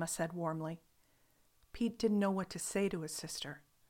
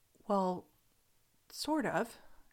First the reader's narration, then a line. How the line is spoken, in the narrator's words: Gemma stammered